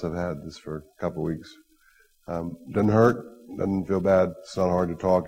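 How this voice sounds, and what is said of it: Hoarse, raspy voice. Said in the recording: “the little bit of laryngitis ... It just sounds a little bit weird if you're not used to hearing my voice like this.”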